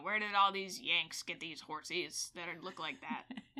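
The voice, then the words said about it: Impression of a Confederate soldier. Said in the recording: “That's my Confederate impression.”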